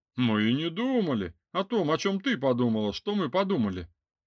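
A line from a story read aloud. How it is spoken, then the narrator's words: Called from behind, amid laughter. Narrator (Russian): донеслось в спину вместе с дружным хохотом охранников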